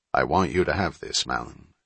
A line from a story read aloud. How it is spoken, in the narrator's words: he said in a low tone